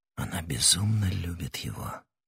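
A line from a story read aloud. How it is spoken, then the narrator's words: Whispering. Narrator (Russian): прошептал он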